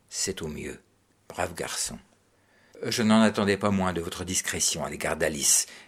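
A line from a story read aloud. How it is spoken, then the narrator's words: Almost cordial tone. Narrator (French): répondit-il d'un ton presque cordial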